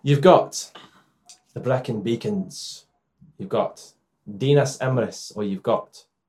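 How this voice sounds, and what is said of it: Put-on Scottish accent. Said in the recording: “Why did I do it in a Scottish accent?”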